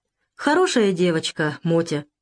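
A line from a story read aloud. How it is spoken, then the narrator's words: Thoughtful. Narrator (Russian): задумчиво промолвил Александр Сергеевич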